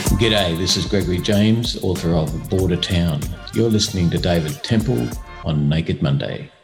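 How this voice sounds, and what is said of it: Put-on radio announcer voice. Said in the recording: “You like my radio voice? ... Not quite Russell Crowe, but you know.”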